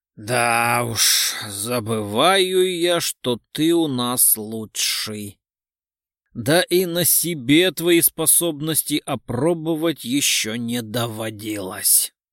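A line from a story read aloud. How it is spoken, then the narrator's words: Grumbling. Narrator (Russian): проворчал Орлов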